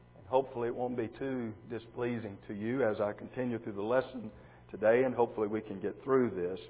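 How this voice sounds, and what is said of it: Hoarse, croaky voice. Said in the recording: “I am croaking this morning. ... I've got a cold and I'm hoarse.”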